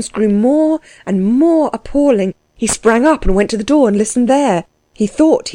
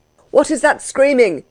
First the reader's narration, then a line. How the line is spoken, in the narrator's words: he cried out